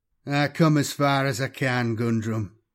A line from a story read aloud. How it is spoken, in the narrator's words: Coyler said wearily